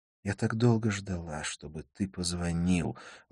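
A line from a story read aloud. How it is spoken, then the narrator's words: Tender, affectionate. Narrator (Russian): ласково сказала Надин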